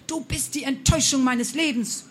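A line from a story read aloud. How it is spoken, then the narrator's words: Repeated screaming. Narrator (German): schrie sie immer wieder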